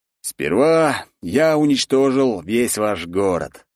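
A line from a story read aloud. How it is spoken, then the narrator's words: Menacing voice. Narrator (Russian): стал говорить грозным голосом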